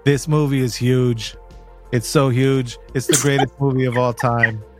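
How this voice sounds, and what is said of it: Deliberately bad impersonation voice. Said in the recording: “An impersonation that I haven't been working on ... it's a very bad impersonation”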